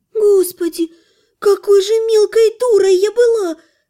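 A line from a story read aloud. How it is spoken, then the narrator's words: Inner groan. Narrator (Russian): мысленно простонала девушка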